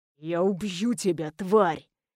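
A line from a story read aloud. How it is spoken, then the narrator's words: Man growling. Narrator (Russian): прорычал мужчина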